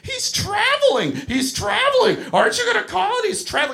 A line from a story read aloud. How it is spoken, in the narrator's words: this hellraiser starts screaming